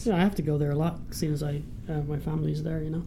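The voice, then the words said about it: Irish accent. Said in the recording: “You have an accent ... I'm from Ireland”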